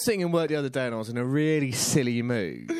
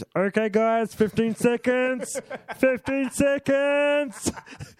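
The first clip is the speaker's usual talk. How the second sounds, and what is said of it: Imitates another person's voice. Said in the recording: “that's a really good impression”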